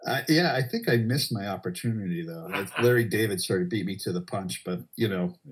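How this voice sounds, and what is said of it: Usual voice. Nothing is said of it.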